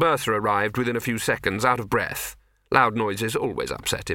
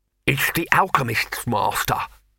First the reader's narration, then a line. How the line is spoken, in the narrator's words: panted